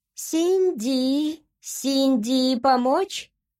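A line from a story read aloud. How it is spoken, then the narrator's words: Creature's squeak. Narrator (Russian): пропищало существо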